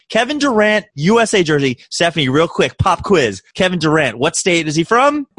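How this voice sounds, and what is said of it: American accent. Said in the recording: “Listen to my accent. ... I am so so oh, goddamn American.”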